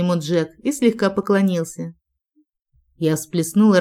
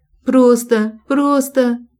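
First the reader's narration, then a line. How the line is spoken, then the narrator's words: Choking sobs. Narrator (Russian): задыхалась во всхлипах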